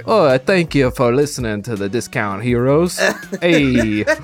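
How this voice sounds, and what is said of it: Imitates the Fonz's voice. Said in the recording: “does he talk like this ... Like the Fonz, do it.”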